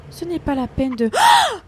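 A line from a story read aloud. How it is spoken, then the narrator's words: Screaming. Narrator (French): hurla-t-elle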